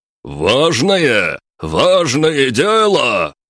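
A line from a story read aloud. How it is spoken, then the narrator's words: Roaring. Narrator (Russian): Взревел Алексей Николаевич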